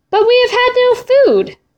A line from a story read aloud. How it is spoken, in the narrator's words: the man shouted